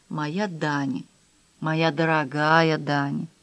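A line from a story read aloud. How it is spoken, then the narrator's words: Strained murmur. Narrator (Russian): Сделав над собой усилие, Даниэль пробормотал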